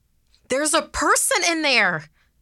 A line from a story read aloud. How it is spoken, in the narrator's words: someone shouted